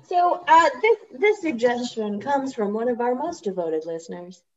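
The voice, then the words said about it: Put-on radio announcer voice. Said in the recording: “I put on my radio voice”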